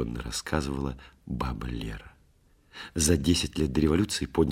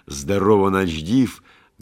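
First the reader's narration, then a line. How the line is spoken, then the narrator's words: Loud bark, big man. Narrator (Russian): гаркнул с порога огромный, картинно увешанный оружием недавний гайдамак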